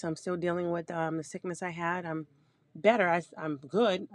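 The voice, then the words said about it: Hoarse voice. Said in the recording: “I'm still a little hoarse ... I just don't sound great”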